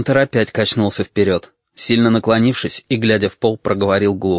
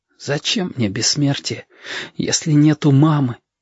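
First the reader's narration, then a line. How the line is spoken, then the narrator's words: Whispering little hedgehog. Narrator (Russian): шепотом сказал ежики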